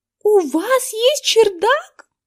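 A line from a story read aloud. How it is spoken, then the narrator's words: Exclamation. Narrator (Russian): воскликнула Эрин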